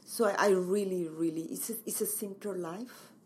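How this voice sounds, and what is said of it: Mexican Spanish accent. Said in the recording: “You have a beautiful accent. I believe you're from Mexico.”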